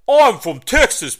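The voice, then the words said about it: Mixed Boston, Brooklyn and Texas accent. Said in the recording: “you're doing a Boston accent or a Brooklyn accent ... I think that was like a combination of all three.”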